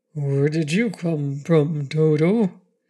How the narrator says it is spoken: the Cowardly Lion he said sleepily

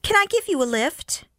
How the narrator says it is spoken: called out

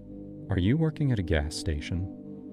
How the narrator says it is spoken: she said, her voice too calm

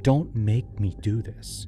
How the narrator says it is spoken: He'd whisper

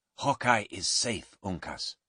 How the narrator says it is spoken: Duncan said quietly

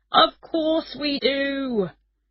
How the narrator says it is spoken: shouted

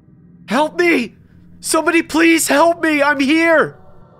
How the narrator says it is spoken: I screamed as loud as I could

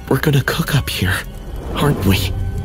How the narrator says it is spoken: Jake's voice was barely a whisper, raw with fear

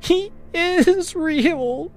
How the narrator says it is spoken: she sobbed

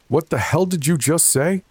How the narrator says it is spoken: I shouted

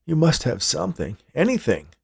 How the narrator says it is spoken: Hank pleaded

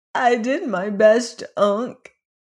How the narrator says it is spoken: he said with a sob

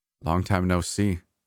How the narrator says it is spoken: I stammered

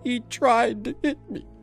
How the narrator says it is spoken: she sobbed

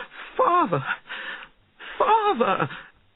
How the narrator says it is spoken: cried

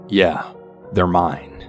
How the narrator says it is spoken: My mother kind of scoffs to this and then goes

